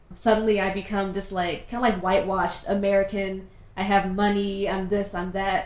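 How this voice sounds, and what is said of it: American accent. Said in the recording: “as soon as like people hear that like I have an American accent”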